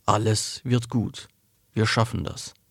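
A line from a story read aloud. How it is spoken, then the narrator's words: Whispered promise. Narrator (German): versprach flüsternd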